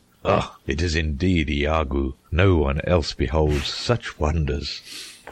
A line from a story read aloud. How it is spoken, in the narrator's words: Laughing, answered him in this wise